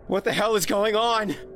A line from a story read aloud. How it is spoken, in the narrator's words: I shouted